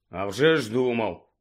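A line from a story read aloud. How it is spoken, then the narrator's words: Grumbling. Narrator (Ukrainian): буркнув Гаррі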